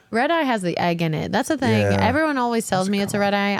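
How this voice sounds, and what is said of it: Holler accent. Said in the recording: “I have a holler accent,”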